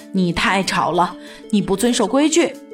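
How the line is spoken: Breathless, panting. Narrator (Chinese): 马彬先生喘着气说

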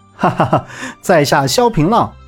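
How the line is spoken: Laughing. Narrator (Chinese): 萧平浪笑道

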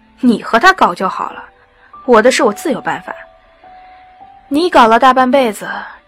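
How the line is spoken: Sarcastic retort. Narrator (Chinese): 行乐讽刺地回他

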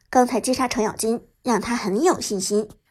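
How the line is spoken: Deep, grave voice. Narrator (Chinese): 诸葛亮沉声说道

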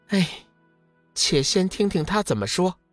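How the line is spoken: Sighing. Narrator (Chinese): 天月上人叹息一声道

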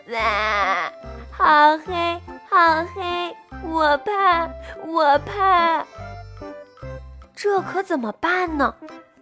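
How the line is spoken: Loud frightened crying. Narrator (Chinese): 它 在那里大声哭

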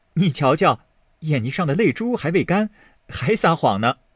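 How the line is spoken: Laughing. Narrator (Chinese): 宝玉笑道

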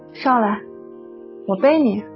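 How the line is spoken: Sighing. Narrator (Chinese): 他叹了口气 说

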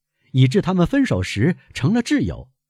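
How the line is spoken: Laughing. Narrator (Chinese): 阿尔贝笑着补充说

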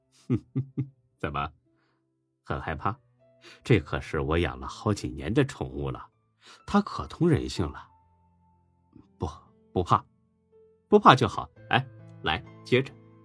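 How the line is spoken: Smug laughter. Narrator (Chinese): 楚河很是得意的笑了

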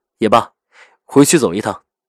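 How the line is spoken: Light smiling laugh. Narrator (Chinese): 赵世南勾唇轻笑着

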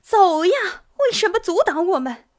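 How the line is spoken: Loud shout. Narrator (Chinese): 有人大叫道

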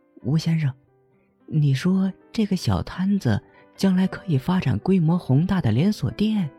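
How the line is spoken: Quiet, interested question. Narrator (Chinese): 温情忽有兴致的小声问起吴基

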